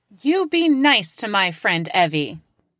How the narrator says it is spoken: I would overcome my bewilderment and yell, out loud, with my actual voice

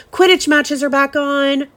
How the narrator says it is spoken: roared Wood excitedly

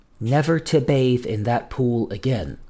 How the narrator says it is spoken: answered, lowering her voice to a whisper

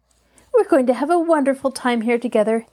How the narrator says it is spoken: Helen chatted happily on

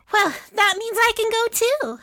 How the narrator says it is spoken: Adilah said happily

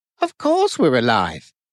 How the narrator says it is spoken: Tobin laughed

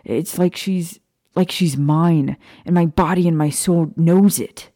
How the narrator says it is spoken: he said, pounding his fist against his chest angrily

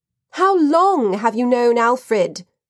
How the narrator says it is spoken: asked, shouting to be heard over the music

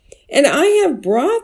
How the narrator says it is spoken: exclaimed another neighbor

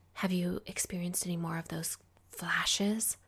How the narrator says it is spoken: she asked, her voice lowered to little more than a whisper

